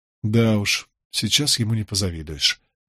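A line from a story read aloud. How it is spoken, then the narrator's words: Inward sigh. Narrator (Russian): вздохнул я про себя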